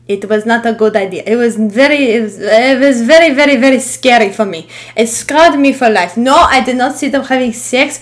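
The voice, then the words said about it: Speaks in a put-on accent. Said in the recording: “I don't know why I'm talking in this accent”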